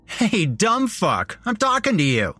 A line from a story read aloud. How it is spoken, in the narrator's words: Jeremy said with a laugh